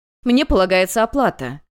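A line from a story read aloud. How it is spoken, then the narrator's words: Shouted. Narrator (Russian): кричала одна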